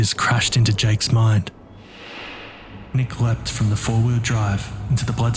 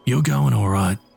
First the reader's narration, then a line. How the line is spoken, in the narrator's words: said Crow